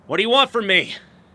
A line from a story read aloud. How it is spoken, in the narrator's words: I shouted